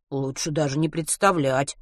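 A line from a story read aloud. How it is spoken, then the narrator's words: Grumble. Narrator (Russian): буркнул Матвей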